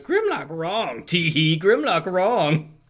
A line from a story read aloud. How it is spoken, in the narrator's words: cackling as he mutters